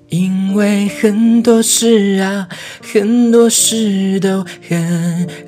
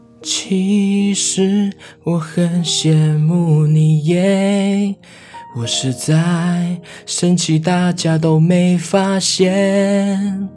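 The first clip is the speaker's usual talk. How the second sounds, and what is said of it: Very quiet, soft voice. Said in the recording (Chinese): “小小声地说”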